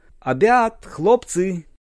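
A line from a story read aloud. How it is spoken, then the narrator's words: Loud proclamation. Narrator (Russian): Она громко провозгласила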